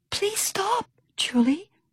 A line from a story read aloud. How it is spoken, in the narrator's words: Pip hissed